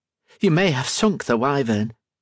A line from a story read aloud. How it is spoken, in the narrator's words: Griff said